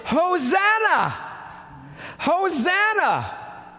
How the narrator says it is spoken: those who went ahead and those who followed shouted

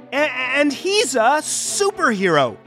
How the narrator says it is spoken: cried Herman

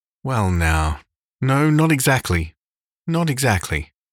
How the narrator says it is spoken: said Matthew uneasily

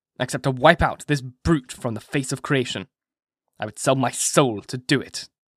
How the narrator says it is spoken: he answered haughtily

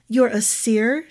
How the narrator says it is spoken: said, her voice cracking a little as she sat up

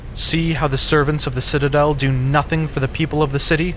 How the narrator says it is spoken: the Scarlin cried out again

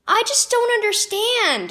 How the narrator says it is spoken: Avery cried

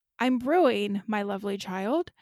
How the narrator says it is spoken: said hoarsely

